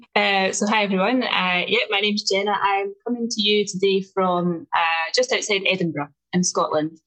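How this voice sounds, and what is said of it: Strong Scottish accent, rolled R's. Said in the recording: “my accent is quite strong... I roll my R's”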